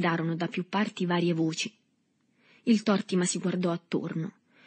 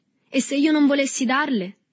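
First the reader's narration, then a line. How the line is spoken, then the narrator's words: Defiant shout, young lad. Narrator (Italian): gridò con tono di sfida il ragazzotto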